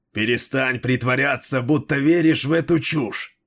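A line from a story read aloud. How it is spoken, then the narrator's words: Growling. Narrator (Russian): прорычал Дрибок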